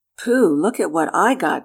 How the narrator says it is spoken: cried Freddie

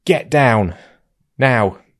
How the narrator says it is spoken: I just shouted at her

